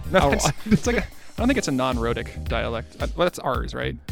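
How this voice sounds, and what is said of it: Australian accent. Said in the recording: “Oh, you're Australian. Took me a second to understand.”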